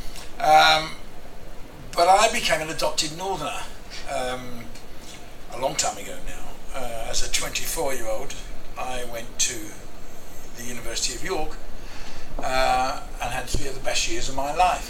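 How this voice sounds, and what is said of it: London English accent. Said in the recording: “you can tell from my accent that I'm a Londoner”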